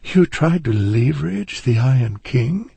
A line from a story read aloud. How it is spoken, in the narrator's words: Erica said, giving a nervous laugh